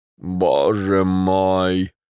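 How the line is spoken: Groaning. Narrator (Russian): простонал Рябовский

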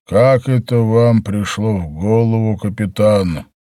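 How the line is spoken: Gloomy question. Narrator (Russian): он мрачно спросил

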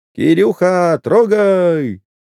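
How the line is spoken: Distant shout. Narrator (Russian): впереди обоза кто-то крикнул

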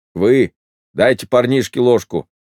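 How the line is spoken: Stern remark. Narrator (Russian): строго заметил Пантелей

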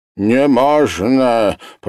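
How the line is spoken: Old woman grumbling. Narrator (Russian): проворчал старуха

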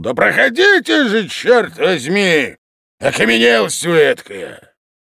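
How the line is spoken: Irritated shout. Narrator (Russian): еще более раздраженный и грубо крикнул

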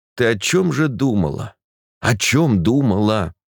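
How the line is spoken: Through gritted teeth. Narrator (Russian): сквозь зубы сказал я фельдшеру

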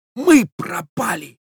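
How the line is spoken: Young man's whisper. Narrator (Russian): прошептал молодой человек

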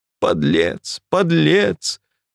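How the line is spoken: Sobbing, choking on tears. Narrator (Russian): всхлипнула молодая женщина и давилась слезами

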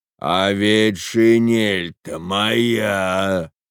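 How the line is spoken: Thunderous voice. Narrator (Russian): сказал один из них, громовым голосом

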